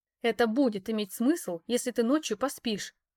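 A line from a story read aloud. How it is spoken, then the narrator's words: Growl. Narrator (Russian): рыкнула я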